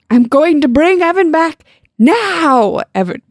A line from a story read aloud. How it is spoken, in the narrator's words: Brian shouted